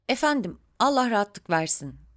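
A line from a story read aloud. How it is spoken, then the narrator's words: Plain. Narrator (Turkish): dedi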